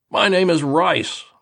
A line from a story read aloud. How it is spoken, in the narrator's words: I bellowed